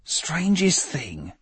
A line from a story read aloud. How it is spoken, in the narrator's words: he said quietly, perhaps to himself